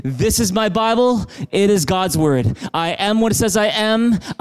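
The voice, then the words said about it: Loud, emphatic group recitation. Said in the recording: “say in a big loud voice.”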